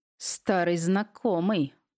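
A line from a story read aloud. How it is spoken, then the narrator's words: Hateful words through teeth. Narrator (Russian): процедил он с плохо скрываемой ненавистью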